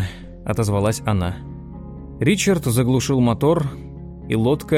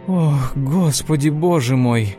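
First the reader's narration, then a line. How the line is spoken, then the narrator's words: Breathless exclamation. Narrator (Russian): выдохнула она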